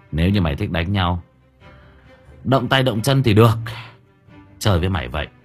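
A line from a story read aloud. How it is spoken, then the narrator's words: Sighing. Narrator (Vietnamese): Gã thở dài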